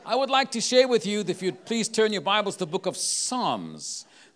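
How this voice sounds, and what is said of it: Afrikaans accent in English. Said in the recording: “My home language is not English, so if you hear me with an accent ... it's known as a derivative of Dutch. It's called Afrikaans.”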